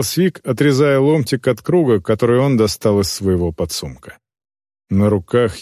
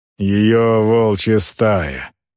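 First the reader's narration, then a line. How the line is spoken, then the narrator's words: Gloomy. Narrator (Russian): мрачно проговорил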